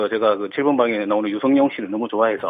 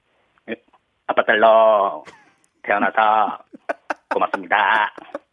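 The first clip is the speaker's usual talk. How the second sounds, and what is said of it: Imitates another person's voice. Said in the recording (Korean): “류성룡 씨 한번 성대모사 한번 보겠습니다. ... 그냥 성대모사로 생각하시면 됩니다.”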